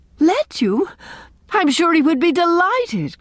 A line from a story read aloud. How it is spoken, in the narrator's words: cried Anne